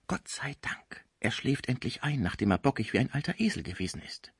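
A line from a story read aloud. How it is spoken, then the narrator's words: Whisper in ear. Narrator (German): flüsterte dem Deutschen ins Ohr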